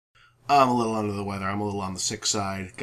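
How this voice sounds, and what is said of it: Congested, sick-sounding voice. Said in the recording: “Got a little bit of a cold, so if my voice sounds different”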